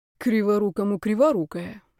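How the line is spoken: Sighing. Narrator (Russian): вздохнула я

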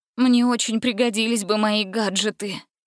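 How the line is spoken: Defeated sigh. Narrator (Russian): вздохнула она, готовая принять полное поражение

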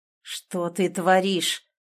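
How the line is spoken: Low strangled drunken growl. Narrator (Russian): прорычал он тихо, низким сдавленным голосом пьяной ярости

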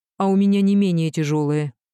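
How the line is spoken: Sharp, nerves frayed. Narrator (Russian): отвечаю резко, нервы уже не к черту

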